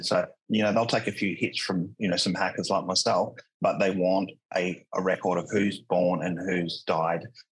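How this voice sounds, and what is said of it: Australian accent. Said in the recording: “I'm Australian, by the way, accent wise”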